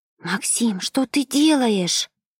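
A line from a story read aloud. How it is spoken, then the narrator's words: Desperate hiss. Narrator (Russian): Отчаянно прошипела Ева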